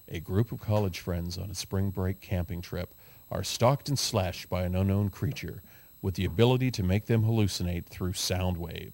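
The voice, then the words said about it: Dramatic movie trailer narrator voice. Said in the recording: “my great movie trailer voice”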